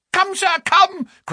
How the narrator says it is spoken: cried Frankland

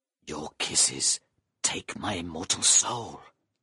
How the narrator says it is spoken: he breathed softly

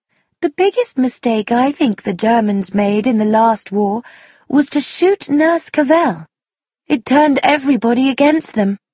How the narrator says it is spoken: Sproat said in her thin voice

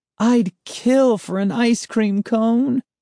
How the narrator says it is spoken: Sari wailed

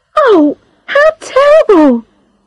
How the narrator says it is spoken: cried Charlotte

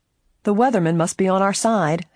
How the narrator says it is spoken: Helen chuckled

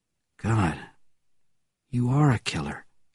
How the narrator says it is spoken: said the brother quietly

